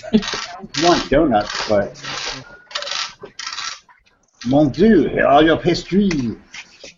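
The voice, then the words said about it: Bad fake French accent. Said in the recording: “That accent, French or something? ... a very bad French accent”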